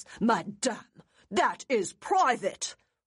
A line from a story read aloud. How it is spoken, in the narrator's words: Ormsby snapped in fury